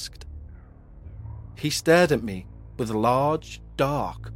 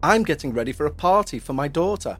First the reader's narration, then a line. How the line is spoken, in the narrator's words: said